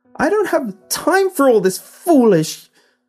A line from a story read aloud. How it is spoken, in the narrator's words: screeched